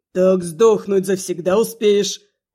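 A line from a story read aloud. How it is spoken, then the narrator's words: Convinced growl. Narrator (Russian): Убежденно рыкнула Рябая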